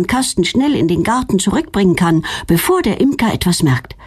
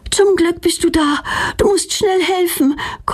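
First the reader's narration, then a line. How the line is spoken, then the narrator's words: Panting. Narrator (German): keucht Petronella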